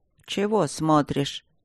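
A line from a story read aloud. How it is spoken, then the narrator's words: Straining grumble. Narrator (Russian): проворчала настоятельница, волоча тяжеленного мужика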